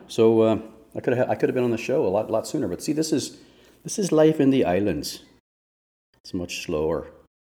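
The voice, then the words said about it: Put-on Irish-sounding island accent. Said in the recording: “I don't know why now I all of a sudden have an Irish accent. ... My attempt to be a Bahama type speak.”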